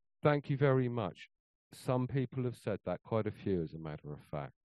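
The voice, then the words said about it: British accent. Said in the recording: “the Brit ... you have a lovely accent.”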